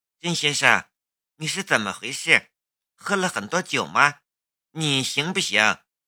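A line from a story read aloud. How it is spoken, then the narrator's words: Low voice. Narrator (Chinese): 石静秋低声说道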